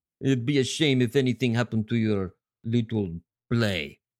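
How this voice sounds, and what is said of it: Poor put-on Russian accent. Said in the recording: “my really poor Russian accent”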